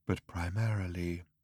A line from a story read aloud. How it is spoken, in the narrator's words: he said in his former wistful tone